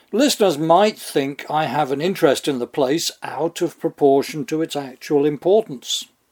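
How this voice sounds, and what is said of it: British accent. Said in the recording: “I come from there myself, as you can tell from the accent.”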